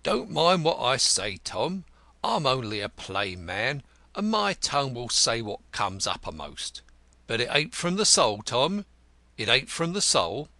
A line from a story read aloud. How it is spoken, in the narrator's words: said Peter, punning feebly